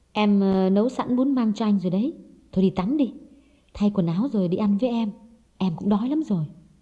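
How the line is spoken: Soft, gentle. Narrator (Vietnamese): Hồng nhỏ nhẹ nói

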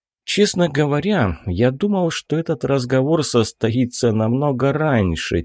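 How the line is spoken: Quiet. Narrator (Russian): тихо начал Катана

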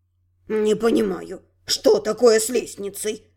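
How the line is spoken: Frowning mutter. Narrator (Russian): Нахмурившись, пробормотал высший жрец

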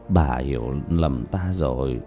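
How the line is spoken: Tearful mumbling. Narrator (Vietnamese): Diệp Bá lệ rơi đầy mặt, lắc đầu lẩm bẩm

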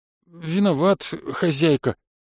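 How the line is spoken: Cowed, fearful voice. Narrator (Russian): таким затравленным голосом сказал домовой, будто его ждала вечером порка

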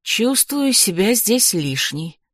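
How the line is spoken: Sigh. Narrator (Russian): вздохнула Магда

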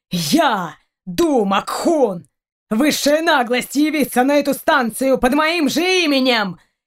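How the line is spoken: Furious shout. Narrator (Russian): Яростно выкрикнул Раун

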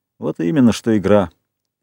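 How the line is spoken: Plain. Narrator (Russian): сказал Ральф

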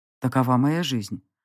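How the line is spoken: Cold remark. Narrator (Russian): холодно заметил он

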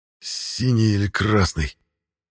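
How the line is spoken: Hissing. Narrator (Russian): прошипел

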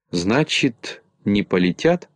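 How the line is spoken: Plain. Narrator (Russian): спросил Топик

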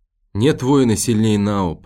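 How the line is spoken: Moaning. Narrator (Russian): простонал Нам

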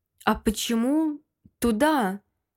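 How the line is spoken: Uncertain. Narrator (Russian): неуверенно молвила

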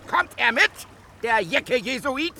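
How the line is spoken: Delighted laughing shout. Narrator (German): schrie vor Vergnügen lachend

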